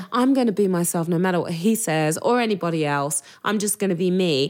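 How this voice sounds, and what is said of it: English accent. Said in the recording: “your English accent's a distraction”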